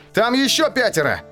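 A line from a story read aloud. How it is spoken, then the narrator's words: Shouted. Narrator (Russian): крикнул я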